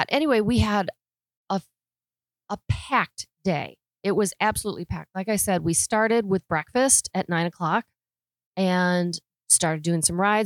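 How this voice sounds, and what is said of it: Strained, unwell-sounding voice. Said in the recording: “I'm so sorry about my voice. It's just not happy.”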